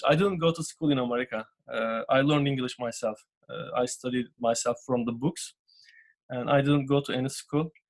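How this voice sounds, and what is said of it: Turkish-accented non-native English. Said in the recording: “a bit of an accent in your voice ... I don't have a very good accent ... I am from Turkey”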